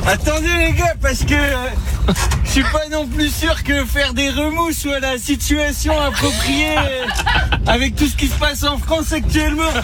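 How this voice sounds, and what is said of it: Raphaël Quenard impression, odd Grenoble accent. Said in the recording (French): “une façon donc particulière de parler ... un langage qui est assez soutenu ... accent bizarre ... de la région grenobloise ... un petit défaut de prononciation ... un petit peu d'élocution ... l'imitation”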